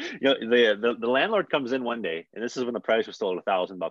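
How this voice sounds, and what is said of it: Usual voice. Nothing is said of it.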